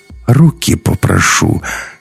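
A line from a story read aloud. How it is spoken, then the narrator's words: Almost gentle. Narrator (Russian): сказал он почти ласково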